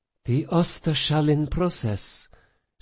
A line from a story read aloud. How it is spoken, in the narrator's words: Sophia breathed, betrayed by her own rising excitement